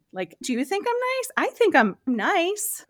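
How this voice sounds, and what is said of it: Hesitant, high-pitched, uncertain voice. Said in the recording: “there's this hesitation and this high voice that comes out that sounds uncertain”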